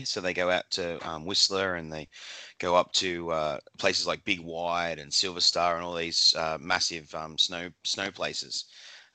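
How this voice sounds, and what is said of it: Australian accent. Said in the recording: “you don't have a Canadian accent. You have an Aussie accent.”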